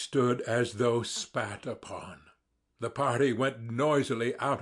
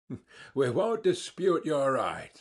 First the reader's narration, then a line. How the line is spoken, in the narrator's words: the others answered, laughing